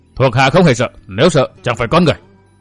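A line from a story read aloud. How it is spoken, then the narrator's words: Proud, raised voice. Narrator (Vietnamese): Quắc Khiếu Hồ ưỡn ngực cao giọng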